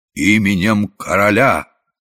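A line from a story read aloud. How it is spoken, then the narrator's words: Solemn proclamation. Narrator (Russian): торжественно провозглашая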